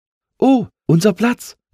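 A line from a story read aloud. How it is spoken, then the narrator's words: Calling out. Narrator (German): rief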